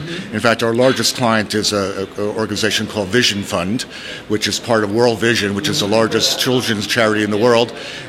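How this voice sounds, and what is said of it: American accent. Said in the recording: “Hard to keep the American accent”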